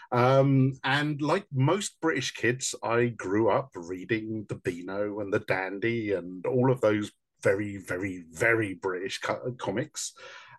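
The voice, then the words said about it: London English accent. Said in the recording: “as you can guess from the accent, I'm from the UK, from London.”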